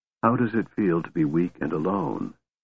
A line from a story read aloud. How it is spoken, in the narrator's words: Raistlin asked him softly